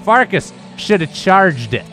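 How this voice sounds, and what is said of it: Thick Southern accent. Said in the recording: “He's got this thick Southern accent.”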